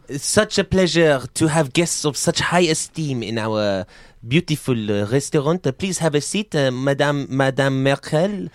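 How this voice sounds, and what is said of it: Put-on French accent. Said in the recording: “Oh, good, another accent.”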